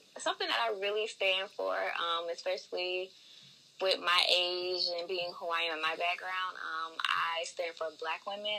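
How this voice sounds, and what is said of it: Southern US country accent. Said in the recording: “I am originally from Augusta, Georgia, so y'all might hear an accent. I'm a little country”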